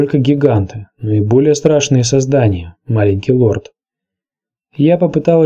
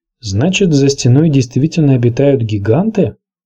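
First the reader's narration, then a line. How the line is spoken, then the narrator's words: Uncertain question. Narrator (Russian): спросил он у Оши неуверенным тоном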